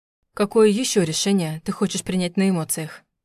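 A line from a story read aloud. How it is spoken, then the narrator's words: Irritatingly calm question. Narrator (Russian): спросил он раздражающе спокойно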